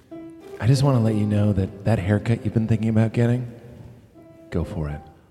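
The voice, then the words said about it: Soft, soothing voice. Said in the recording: “do my soothing voice.”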